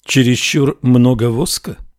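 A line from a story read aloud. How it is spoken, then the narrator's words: Plain. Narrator (Russian): спросила Ариана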